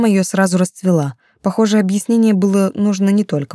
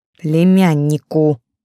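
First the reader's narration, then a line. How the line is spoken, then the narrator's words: Through gritted teeth. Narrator (Russian): сквозь зубы поправила Настя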